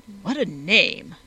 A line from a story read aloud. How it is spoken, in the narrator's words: exclaimed Captain Seedybuck